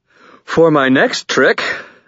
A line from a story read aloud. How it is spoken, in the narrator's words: I panted into the startled silence